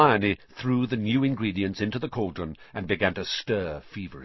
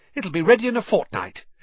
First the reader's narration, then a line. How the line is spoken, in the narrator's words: she said happily